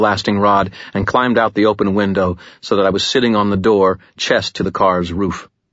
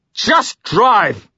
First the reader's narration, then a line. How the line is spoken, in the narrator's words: I shouted